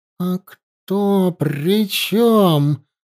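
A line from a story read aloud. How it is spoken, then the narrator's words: Growl. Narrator (Russian): прорычала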